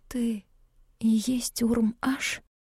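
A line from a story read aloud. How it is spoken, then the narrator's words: Whispered. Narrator (Russian): прошептала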